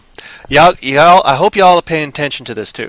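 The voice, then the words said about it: Lapses into Texas accent. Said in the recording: “why do I keep lapsing into that accent every once in a while? It must be you Texas people there”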